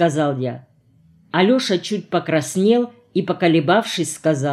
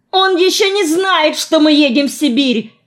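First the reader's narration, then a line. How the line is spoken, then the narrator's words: Yelled. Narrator (Russian): заорал я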